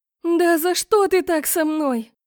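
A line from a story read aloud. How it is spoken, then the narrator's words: Angry shout, voice trembling. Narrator (Russian): В сердцах закричала я, и голос дрогнул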